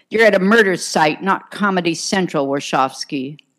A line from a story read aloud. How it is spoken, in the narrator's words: McGivney snapped